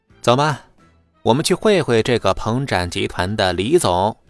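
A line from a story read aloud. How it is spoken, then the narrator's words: Confident laugh. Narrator (Chinese): 秦牧……自信的笑道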